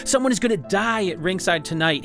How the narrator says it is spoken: he shouted at Sonny

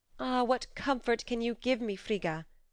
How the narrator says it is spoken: cried Freya

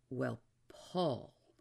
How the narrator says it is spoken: said, and paused gravely

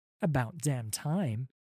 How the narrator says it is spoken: said Sarah

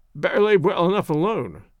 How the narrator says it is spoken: grumbled Wilson

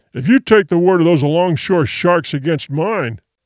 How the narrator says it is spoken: the other began thickly

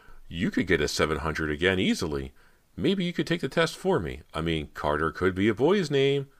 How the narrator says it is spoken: said, half laughing

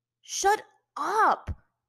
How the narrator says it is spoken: Aang shouted to the two of them

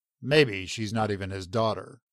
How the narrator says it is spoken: he growled

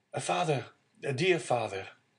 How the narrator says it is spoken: a well-known voice behind him exclaimed

